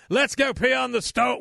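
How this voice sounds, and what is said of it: Failed Irish accent, sounds English. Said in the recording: “What was that? That was an English accent. I can't do an Irish accent.”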